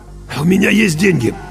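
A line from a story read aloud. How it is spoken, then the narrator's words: Throat-clearing, hoarse. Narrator (Russian): Кузнецов откашлялся и хрипло сказал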